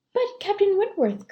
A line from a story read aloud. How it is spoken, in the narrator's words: cried Louisa